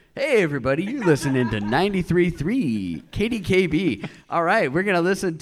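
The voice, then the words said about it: Mock radio DJ voice. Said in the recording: “I'm trying to give my best radio voice,”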